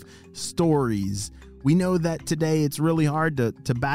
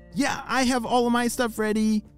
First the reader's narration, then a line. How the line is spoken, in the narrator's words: shouted Lucy